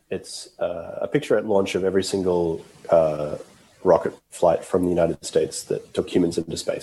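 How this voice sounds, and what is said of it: Hoarse, strained voice. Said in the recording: “losing your voice”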